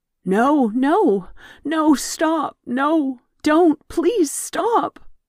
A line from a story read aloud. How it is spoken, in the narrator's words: Gaia sobbed